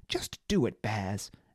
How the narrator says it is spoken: Emma snapped, perhaps more loudly than she'd intended

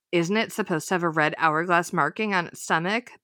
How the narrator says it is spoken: Bess asked in a shaky voice

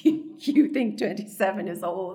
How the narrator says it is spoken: I laugh

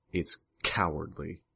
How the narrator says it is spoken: Bitch spat the words

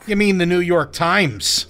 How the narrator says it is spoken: barked

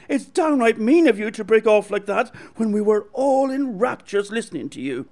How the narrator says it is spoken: cried Mary Jane

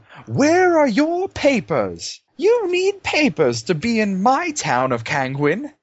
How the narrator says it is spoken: you hear the man in the fancy clothes yell

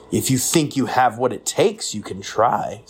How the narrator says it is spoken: said Polly

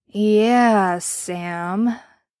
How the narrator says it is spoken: he drawled slowly

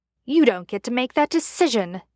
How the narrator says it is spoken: Chad snapped back

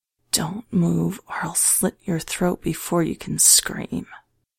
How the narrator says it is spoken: she spoke in a whisper

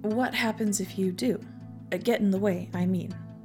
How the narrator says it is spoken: I asked

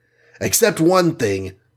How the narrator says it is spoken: barked Hawkeye

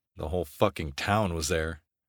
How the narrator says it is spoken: I said under my breath

